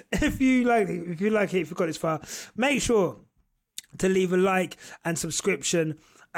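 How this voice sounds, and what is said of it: Hoarse, failing voice. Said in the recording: “Pardon me, my voice is going.”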